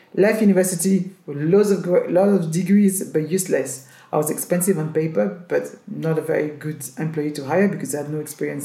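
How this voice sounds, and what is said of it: Strong accent. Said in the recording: “my accent was too strong”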